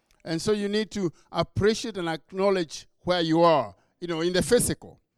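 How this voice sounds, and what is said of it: Kenyan English accent. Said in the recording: “So I have an accent, but it's because I was born and raised in Kenya”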